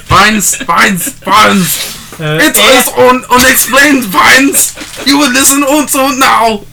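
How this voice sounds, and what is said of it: Put-on German accent. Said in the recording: “my incredibly accurate German accent.”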